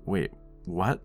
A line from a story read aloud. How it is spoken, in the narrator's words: You stammered